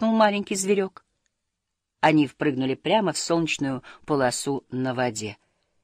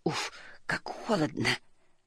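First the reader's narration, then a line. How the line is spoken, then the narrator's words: Mumble. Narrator (Russian): пробормотала она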